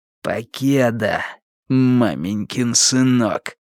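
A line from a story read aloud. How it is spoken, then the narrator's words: Hissing. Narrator (Russian): прошипел Уиттекер Страйку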